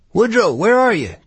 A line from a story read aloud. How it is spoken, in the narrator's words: Gus cried